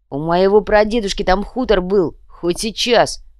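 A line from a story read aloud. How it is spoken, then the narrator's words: Deep bass. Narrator (Russian): пробасил гвоздь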